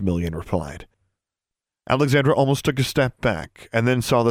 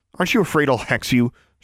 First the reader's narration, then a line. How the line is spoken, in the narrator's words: she snapped